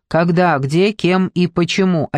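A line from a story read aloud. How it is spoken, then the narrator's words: Clipped, measured words. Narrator (Russian): отчеканил он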